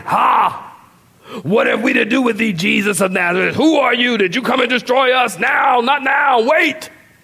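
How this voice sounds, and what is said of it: Demonic character voice. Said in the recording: “it's almost like the demon is with this demonic voice ... That's my demon voice.”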